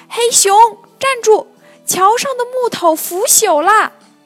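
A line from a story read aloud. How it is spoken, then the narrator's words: Small animal's loud shout. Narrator (Chinese): 树上的小猴子大声喊道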